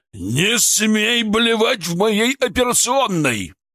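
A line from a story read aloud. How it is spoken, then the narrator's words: Thunderous bark. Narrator (Russian): рявкнул Шаповалов так, что, казалось, задрожали окна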